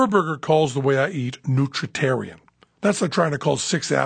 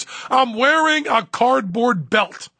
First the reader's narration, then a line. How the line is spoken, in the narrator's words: to show how poor he is, screams